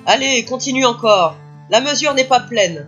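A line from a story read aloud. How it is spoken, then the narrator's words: Shouting. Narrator (French): criait-il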